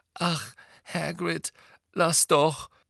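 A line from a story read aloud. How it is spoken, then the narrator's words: Exasperated groan. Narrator (German): stöhnte Hermine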